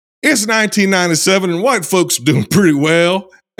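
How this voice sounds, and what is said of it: Put-on accent. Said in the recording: “I don't know that I can get out of this accent ... Are you going to be stuck in that for the rest of the episode? ... do one more intro here in this accent”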